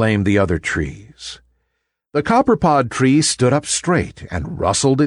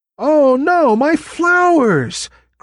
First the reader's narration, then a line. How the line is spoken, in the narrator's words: cried the copperpod tree